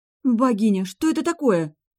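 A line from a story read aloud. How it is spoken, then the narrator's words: Terrified exclamation. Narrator (Russian): в ужасе воскликнула я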